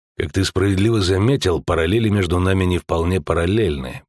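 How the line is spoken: Gruff mutter. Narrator (Russian): буркнул Геральт

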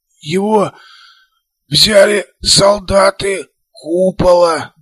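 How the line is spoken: Hoarse wheeze, cyborg. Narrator (Russian): просипел киборг

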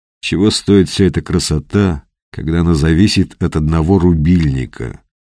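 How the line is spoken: Gloomy. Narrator (Russian): мрачно произнес Петр

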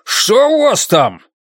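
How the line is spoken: Shouted. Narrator (Russian): прокричал Олбернес

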